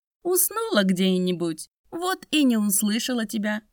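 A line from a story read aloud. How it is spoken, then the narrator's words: Woman laughing. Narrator (Russian): засмеялась баба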